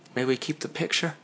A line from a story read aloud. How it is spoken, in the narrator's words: Carl asked quietly